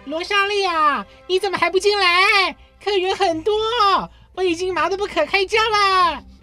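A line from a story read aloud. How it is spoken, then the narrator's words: Aunt calling out. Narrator (Chinese): 罗莎莉的姑姑…喊着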